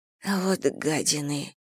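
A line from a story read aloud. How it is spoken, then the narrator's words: Grumbling. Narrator (Russian): проворчала Саня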